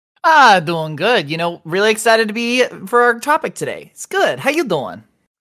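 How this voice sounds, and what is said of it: Put-on accent. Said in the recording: “I love that accent you're going to do for the entire podcast.”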